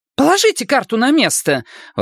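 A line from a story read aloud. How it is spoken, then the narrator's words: Exclaiming. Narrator (Russian): воскликнула она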